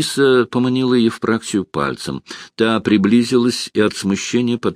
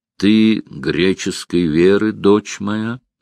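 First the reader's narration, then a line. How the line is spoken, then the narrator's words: Plain. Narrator (Russian): спросил ее Генрих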